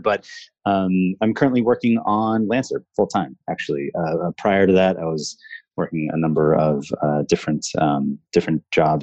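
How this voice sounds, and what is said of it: Smooth, pleasant radio-style voice. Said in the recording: “you have a beautiful radio voice”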